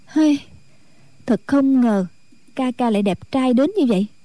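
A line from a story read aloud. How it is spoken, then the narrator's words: Sighing. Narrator (Vietnamese): Thù Nhi thở dài nói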